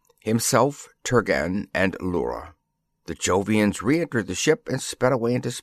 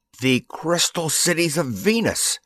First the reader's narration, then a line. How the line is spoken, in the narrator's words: cried Turgan